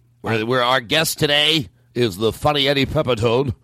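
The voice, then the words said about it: Put-on radio announcer voice. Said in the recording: “my new radio voice”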